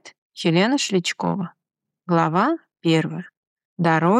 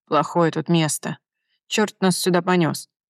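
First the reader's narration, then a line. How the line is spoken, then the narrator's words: Nervous, frightened muttering. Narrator (Russian): Нервно и испуганно бормотал один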